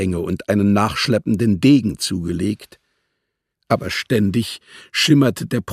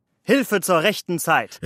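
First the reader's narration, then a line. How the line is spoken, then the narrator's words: Exclamation. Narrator (German): rief Muscari aus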